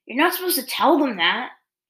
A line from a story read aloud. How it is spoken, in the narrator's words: Zuko moaned